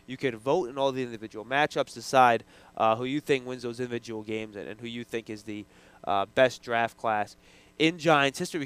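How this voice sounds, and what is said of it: Voice affected by a cold. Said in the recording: “Excuse my cold, by the way. I'm sure you guys can see my voice isn't exactly where it usually is.”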